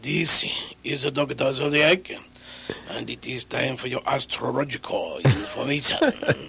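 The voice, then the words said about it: Character voice with put-on Japanese accent. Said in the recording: “he's a Japanese guy who did Chinese astrology. You know, he sounded kind of like a samurai ... with that accent ... in that character”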